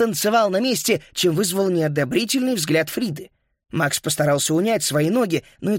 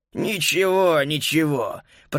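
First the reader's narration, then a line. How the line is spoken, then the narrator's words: Old man's grumble. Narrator (Russian): проворчал старик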